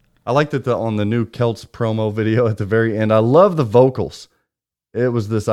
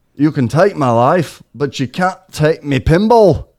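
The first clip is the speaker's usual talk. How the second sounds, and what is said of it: Put-on Scottish accent. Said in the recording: “this iconic Scotland accent. You like my Scotland accent?”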